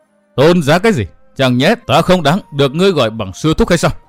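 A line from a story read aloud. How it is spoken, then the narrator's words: Woman roaring. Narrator (Vietnamese): Phụ nhân áo xanh gầm thét nói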